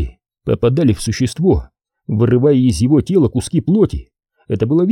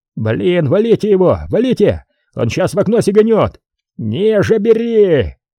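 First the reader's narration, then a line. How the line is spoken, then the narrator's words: Frantic yelling. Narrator (Russian): орал Бондаренко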